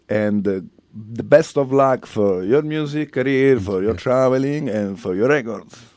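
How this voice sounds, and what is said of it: British accent. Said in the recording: “Sorry for my British accent every time. ... It's so British.”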